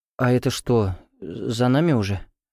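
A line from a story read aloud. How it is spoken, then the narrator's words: Dejected drawl. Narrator (Russian): упавшим голосом протянула Аня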